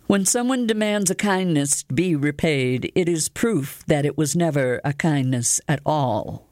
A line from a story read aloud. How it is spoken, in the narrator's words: I said